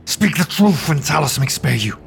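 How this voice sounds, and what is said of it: Commanding shouted character voice. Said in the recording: “In a commanding voice, Sovendal shouts”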